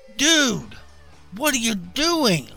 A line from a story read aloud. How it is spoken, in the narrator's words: Moaning, the man